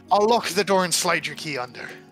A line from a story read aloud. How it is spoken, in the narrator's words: Kind of chuckles